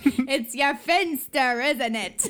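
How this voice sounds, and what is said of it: Really thick put-on accent. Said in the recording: “somebody with a really thick accent”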